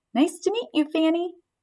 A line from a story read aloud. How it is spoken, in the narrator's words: squeaked